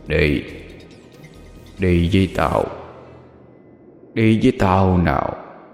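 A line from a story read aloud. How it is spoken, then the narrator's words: Demonic gruff voice. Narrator (Vietnamese): Từ trong cổ họng quỷ dữ phát ra một âm thanh ồm ồm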